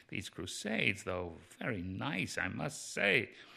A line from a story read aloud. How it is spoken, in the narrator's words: you could hear him muttering